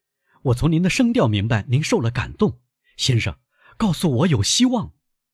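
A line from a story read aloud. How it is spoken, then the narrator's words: Loud. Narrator (Chinese): 泰斯大声说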